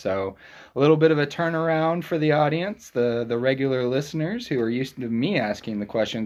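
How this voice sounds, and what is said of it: Projected radio announcer voice. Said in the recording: “You have a good radio voice ... projection ... presence on the radio”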